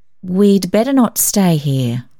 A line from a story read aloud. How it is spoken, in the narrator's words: said slowly